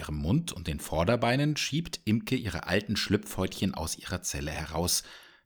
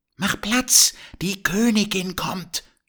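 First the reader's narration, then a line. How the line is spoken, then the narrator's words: Calling out. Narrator (German): ruft Blümchen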